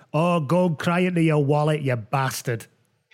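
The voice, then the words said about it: Attempted Scottish accent. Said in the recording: “in a Scottish accent, I'll try and do it”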